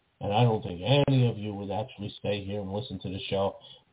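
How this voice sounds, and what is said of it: Lowered, quiet, sleepy-sounding voice. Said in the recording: “if I were to lower my voice, I would sound just like this ... They would just bore people to sleep”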